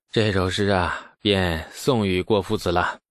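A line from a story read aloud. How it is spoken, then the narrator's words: Sighing. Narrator (Chinese): 李素叹道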